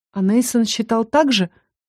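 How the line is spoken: Breathed out. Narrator (Russian): выдохнула

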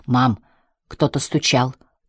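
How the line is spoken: Whispered. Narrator (Russian): прошептал Джек

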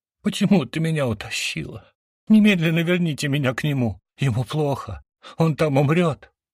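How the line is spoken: Wailing and sobbing. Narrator (Russian): вопящую и рыдающую Ириску

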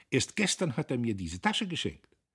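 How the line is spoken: Encouraged exclamation. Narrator (German): rief Guste ermutigt

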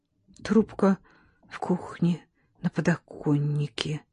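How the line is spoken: Whisper. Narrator (Russian): Герман прошептал

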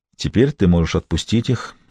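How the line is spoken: Quiet. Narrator (Russian): тихо сказал Гамаш

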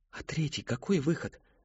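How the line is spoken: Forced out. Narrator (Russian): выдавил, наконец, Кристофер

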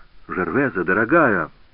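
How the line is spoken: Exclamation. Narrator (Russian): воскликнул Жак

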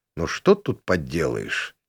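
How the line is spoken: Quiet grumble. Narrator (Russian): тихо пробурчал я

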